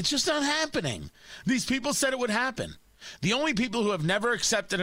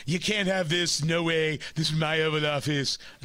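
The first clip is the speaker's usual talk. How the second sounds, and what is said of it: Imitates another person's voice. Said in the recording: “It's a terrible impression. It was the best I can do.”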